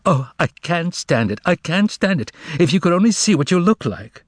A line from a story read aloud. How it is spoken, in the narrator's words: Margarita burst out laughing, and cried out